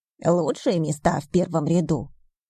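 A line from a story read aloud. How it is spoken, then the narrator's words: Pleased snort. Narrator (Russian): довольно хмыкнула Хильда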